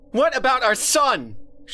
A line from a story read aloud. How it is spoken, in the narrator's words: She screamed